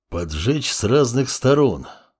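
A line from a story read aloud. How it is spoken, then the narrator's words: Thoughtful mutter. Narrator (Russian): задумчиво пробормотал волк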